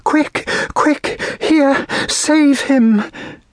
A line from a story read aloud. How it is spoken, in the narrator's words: saying in a breathless voice